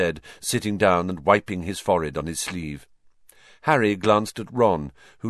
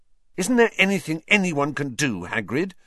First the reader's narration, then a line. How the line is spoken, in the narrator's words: Harry asked fiercely